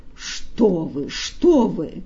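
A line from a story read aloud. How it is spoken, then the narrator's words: Offended exclamation. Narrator (Russian): Фагот обиженно воскликнул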